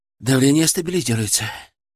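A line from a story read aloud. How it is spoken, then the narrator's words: Strained breathless exhale. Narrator (Russian): с трудом выдохнул Артем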